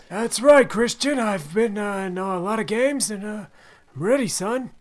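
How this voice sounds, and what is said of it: Old-sounding man's voice impression. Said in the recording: “your Tom Brady impression ... Yeah, very old, man.”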